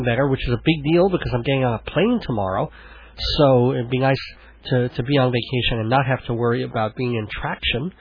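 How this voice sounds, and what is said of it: Congested, phlegmy voice. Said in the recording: “full and brimming over like a fountain of phlegm ... my voice is back up in its normal register, but I've gotten the bad part where I'm sort of gagging and coughing”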